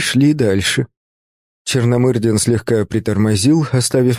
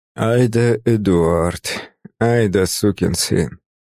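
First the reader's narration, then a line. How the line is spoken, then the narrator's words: Inner voice, muttered. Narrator (Russian): мысленно процедил я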